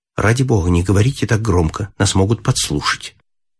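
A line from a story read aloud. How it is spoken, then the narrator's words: Quiet. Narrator (Russian): тихо сказала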